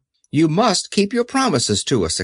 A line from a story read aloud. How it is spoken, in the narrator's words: exclaimed Dorothy